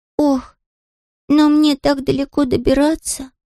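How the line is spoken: Sighing. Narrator (Russian): вздохнул Людвиг XIV

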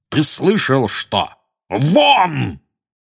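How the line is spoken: Loud bark. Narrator (Russian): гаркнул дядя Вернон

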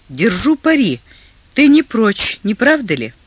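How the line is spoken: Laughing, inwardly annoyed. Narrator (Russian): Он засмеялся, досадуя про себя

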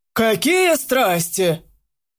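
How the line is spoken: Breathless shout. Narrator (Russian): крикнул вслед майор, переводя дыхание

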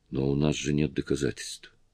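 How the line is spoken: Plain. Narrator (Russian): сказала Сильвана

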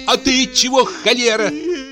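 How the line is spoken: Shout, strong woman. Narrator (Russian): крикнула на нее Фёкла, красивая баба, тоже сильная и широкая в плечах

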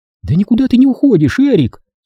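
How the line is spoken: Cheerful. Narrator (Russian): сказала Делла весело

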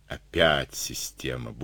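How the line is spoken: Grumbled. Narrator (Russian): буркнул Андрей

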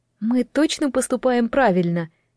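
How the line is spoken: Uncertain question. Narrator (Russian): неуверенно поинтересовалась Дэл

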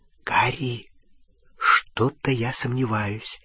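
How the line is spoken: Whisper. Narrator (Russian): зашептала Гермиона

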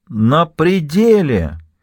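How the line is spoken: Exclamation. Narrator (Russian): воскликнула орфистка

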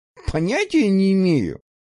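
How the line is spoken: Nervous laugh. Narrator (Russian): нервно засмеялся

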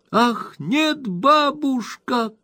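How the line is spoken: Two young ladies shouting. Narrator (Russian): крикнули обе юные леди

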